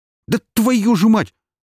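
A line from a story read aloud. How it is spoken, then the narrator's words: Startled cry. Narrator (Russian): вскрикнул Бондаренко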